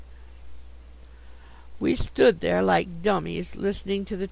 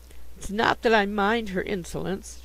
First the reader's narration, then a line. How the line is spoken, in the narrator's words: she sobbed